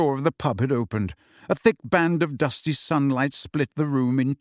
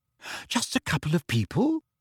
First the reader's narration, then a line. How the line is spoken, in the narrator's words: Hermione repeated